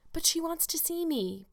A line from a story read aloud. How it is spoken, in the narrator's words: pleaded Anne